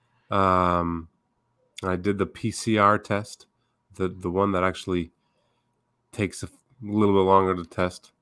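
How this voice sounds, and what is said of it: Voice sounds sick, recovering from illness. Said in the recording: “if you can tell by my voice, I'm kind of coming down from a little bit of a germ”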